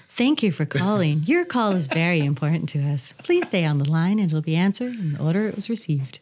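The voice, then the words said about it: Polished call-waiting announcer voice. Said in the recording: “I have that call waiting voice when I do my radio.”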